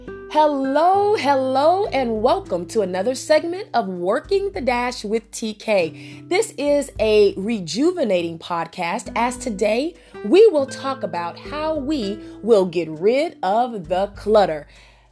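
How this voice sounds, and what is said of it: Stuffy, off-sounding voice. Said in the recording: “You can hear it in my voice. I have been attacked by pollen. ... up in your nose ... regardless of how I sound”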